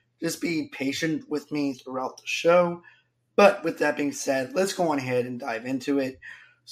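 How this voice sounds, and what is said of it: Voice partly gone, strained. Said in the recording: “my voice is kind of there, but kind of not there”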